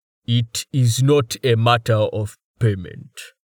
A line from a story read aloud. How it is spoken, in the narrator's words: Torhart rumbled